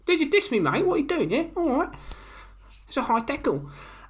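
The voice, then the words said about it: Put-on accent drifting toward Irish. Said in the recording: “I don't know where that accent went. ... South Africa? ... It went towards an Irish rugby fan.”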